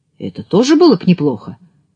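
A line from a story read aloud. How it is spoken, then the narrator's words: Miller's exclamation. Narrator (Russian): воскликнул мельник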